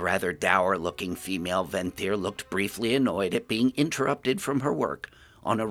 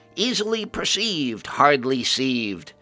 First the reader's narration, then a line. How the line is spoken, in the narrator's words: The clearly insane ghoul cackled again and shouted